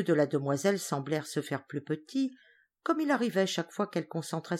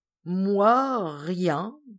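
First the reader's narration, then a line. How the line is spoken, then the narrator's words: Girl stammering. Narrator (French): balbutia la fille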